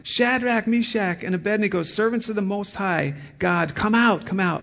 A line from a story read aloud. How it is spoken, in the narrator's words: Nebuchadnezzar then approached the opening of the furnace and shouted